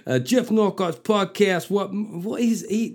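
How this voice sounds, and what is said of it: Failed rapper accent, sounds like mobster. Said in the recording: “Can't do a rapper's accent. ... That didn't even sound like a rapper. That sounded like somebody out of fucking Goodfellas.”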